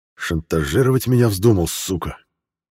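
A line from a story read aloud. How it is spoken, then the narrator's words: Hissing. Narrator (Russian): прошипел майор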